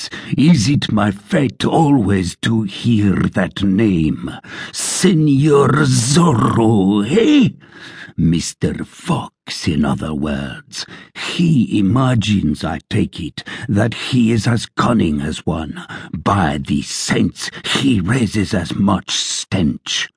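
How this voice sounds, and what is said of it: Terrible, angry shouting voice. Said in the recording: “Gonzalez cried in a terrible voice.”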